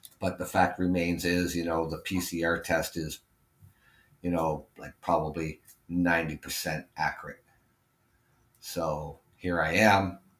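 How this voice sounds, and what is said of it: Congested, hoarse voice. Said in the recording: “I have a sore throat. I'm congested.”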